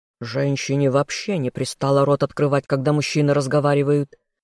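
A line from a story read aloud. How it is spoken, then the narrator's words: Growl. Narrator (Russian): рыкнул лорд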